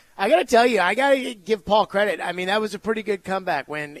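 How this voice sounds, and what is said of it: Usual voice. Nothing is said of it.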